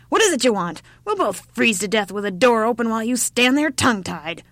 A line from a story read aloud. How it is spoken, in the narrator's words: shouted the old woman again